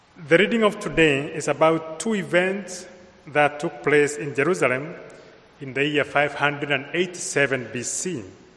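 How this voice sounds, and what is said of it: Kenyan-accented English. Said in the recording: “I come from Kenya, so my accent is imported from Kenya”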